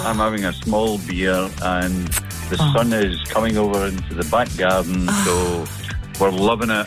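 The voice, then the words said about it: Scottish Glasgow accent. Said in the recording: “what a lovely accent. Where are you speaking from? ... Glasgow.”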